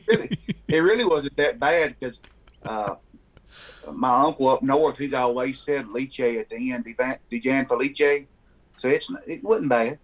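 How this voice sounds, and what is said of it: Local Southern US accent. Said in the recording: “you can tell by my accent, I'm from here ... I can definitely tell that”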